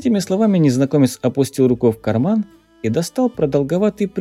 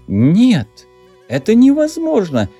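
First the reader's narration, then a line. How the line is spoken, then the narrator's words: Exclamation. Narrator (Russian): хотел воскликнуть настоятель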